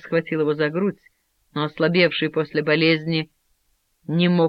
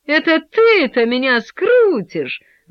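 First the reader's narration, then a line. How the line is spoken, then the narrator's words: Boy laughing loudly. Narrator (Russian): с громким хохотом ответил мальчик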